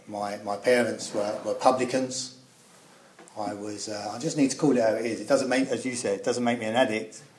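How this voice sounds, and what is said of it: East End London accent. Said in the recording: “You would have picked up from my accent that I come from the East End of London.”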